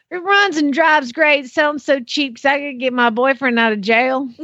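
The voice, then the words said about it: Put-on Southern accent. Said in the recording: “This has to be in a Southern accent”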